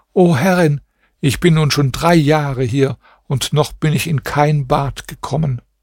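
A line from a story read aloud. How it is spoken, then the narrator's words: Princess speaking tearfully. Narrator (German): sagte die Prinzessin mit weinender Stimme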